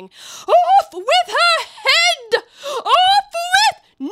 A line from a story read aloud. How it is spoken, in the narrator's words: The Queen turned crimson with fury, like a wild beast, began screaming